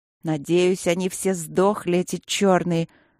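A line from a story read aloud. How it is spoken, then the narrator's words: Vicious hiss. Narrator (Russian): злобно прошипела я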